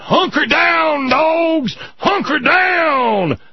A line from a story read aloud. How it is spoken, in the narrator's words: that stadium full of crackers hollering